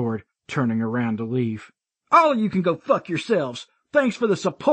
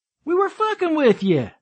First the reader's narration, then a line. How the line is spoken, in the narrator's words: Dylan called out behind me